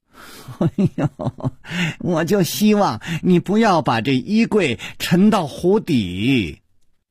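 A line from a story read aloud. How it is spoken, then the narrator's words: Wry, forced smile. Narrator (Chinese): 楚留香苦笑着说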